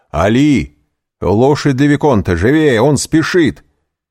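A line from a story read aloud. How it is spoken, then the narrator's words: Shouting. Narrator (Russian): Он кричал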